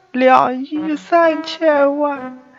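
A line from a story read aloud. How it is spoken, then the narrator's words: Crying woman. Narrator (Chinese): 少妇哭道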